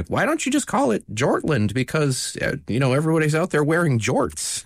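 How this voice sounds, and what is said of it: Bad impression of a friend. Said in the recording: “that's not Jay's voice. I'm sorry for the bad impression.”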